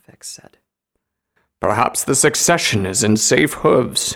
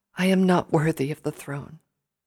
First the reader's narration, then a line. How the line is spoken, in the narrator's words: she said softly